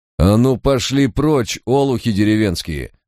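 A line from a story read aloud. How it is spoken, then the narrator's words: Menacing, through gritted teeth. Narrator (Russian): угрожающе процедил Барак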